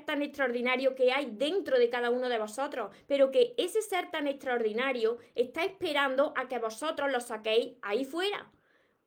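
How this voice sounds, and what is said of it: Andalusian Spanish accent. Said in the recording (Spanish): “yo soy de, del sur de España, de Andalucía, y precisamente soy de Córdoba. Por eso tengo este acento ... jamás voy a dejar mi acento de aquí, de mis raíces, de Córdoba, de Andalucía”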